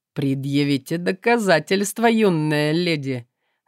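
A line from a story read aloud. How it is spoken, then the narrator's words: Mocking. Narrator (Russian): насмешливо отозвался тот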